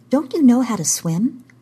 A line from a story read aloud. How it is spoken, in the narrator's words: Kara said